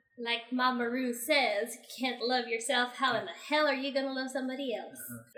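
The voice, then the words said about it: Put-on Texas accent. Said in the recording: “Miss Texas ... practicing fake accents”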